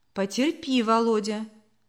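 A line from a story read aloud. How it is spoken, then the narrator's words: Calm mother's reply. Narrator (Russian): спокойно ответила мама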